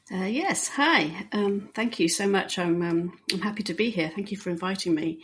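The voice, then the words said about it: British accent. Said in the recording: “you clearly have a British accent”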